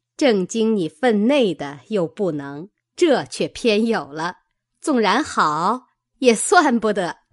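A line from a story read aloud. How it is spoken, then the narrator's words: Group laughing. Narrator (Chinese): 众人笑道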